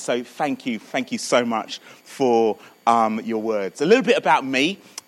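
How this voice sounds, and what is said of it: Southern English accent. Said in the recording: “You can probably hear that my accent's a little further south, so I'm sort of born and brought up in Croydon.”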